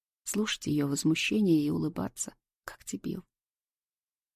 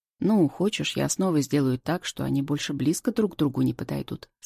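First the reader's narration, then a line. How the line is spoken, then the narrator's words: Calm man's question. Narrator (Russian): спокойно спрашивает мужик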